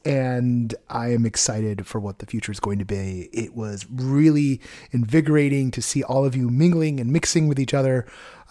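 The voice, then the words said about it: Hoarse, strained voice. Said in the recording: “You can still hear that my voice is a little blown out from the weekend. No, I'm not sick. It's just I was talking so much that it hasn't recovered yet.”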